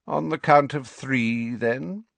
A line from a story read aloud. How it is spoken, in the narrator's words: said Snape lazily